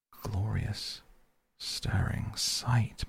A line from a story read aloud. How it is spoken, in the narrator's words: murmured Toad